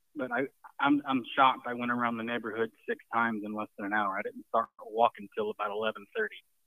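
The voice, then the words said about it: Out of breath, panting speech. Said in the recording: “I sound a little out of breath, it's because I went around the neighborhood 6 times in less than an hour ... I'm just out of breath”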